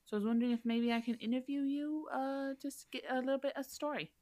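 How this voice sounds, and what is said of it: Wavering put-on accent. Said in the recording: “I don't know where my accent's going.”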